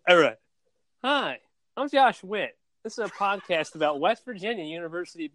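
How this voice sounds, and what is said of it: Imitates another person's voice. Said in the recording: “that Josh Wade impression ... Josh Witt impression ... That's pretty spot on”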